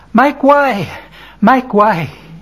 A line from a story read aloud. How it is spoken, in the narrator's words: man shouts in a panting voice